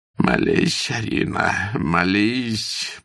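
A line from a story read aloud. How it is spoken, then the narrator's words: Moaned. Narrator (Russian): простонал он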